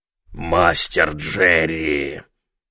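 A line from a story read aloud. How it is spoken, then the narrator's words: Booming hoarse whisper. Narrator (Russian): загремел он хриплым шепотом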